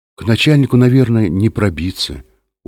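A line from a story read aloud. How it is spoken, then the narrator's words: Glum. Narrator (Russian): уныло сказал Юра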